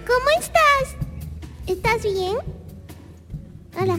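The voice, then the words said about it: Child's cartoon voice. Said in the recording (Spanish): “pongo voz de niño ... escuchaba niño por ahí”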